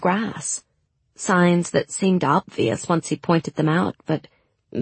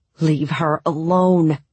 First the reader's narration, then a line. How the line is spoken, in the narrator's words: Mal snarled